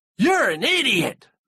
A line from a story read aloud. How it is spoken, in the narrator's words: they screamed